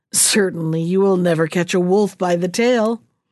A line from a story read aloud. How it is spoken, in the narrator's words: she would add with a laugh